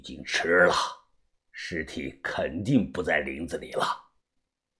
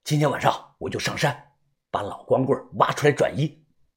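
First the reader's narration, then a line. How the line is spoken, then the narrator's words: Hurried, restless. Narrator (Chinese): 我坐不住了，急忙说道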